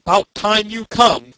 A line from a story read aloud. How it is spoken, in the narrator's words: growled the god of the car